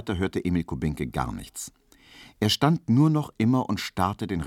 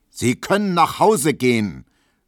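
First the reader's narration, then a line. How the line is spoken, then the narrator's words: Very loud judge's bellow. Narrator (German): brüllte der Richter mit einer Stimme, als ob er einen Schlafwandler wecken wollte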